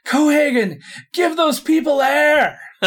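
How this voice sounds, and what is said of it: Arnold Schwarzenegger impression, yelling. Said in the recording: “Someone could probably do a better Arnold impression than I can”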